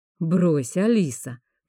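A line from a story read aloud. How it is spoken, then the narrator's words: Slightly irritated. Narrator (Russian): произнес хранитель слегка раздраженным голосом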